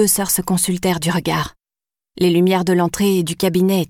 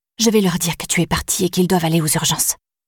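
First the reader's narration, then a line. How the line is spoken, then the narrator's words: Whispered. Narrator (French): chuchota Diane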